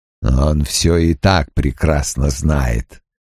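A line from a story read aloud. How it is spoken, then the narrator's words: Growling. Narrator (Russian): прорычал Крэмер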